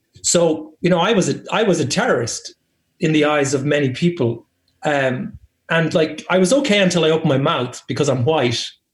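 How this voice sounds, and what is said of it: Irish accent. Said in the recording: “because I'm Irish ... as soon as people would hear my accent”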